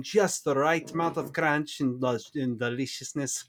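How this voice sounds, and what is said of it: Briefly speaks in a put-on accent. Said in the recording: “I don't know why I went with an accent there.”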